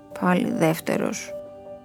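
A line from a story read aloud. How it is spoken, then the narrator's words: Sweaty murmur. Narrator (Greek): μουρμουρίζει ο Πέτρος ιδρωμένος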